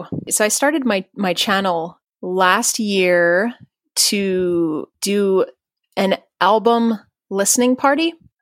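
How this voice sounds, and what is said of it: Slightly tired voice. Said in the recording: “my voice is like a little bit tired”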